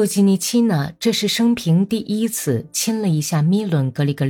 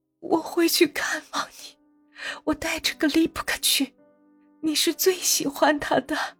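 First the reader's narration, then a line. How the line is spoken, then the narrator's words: Tearful whisper. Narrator (Chinese): 哭哭啼啼，耳语说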